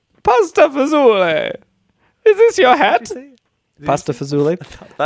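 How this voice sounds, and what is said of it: Exaggerated Italian accent drifting German. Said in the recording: “Any Italian accent I do would just be offensive. ... It would sound like Mario and Luigi. ... That turned German.”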